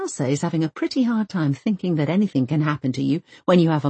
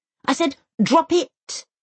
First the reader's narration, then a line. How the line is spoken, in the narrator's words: Elsa snaps at both of them